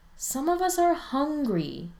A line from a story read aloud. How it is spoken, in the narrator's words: Spencer whines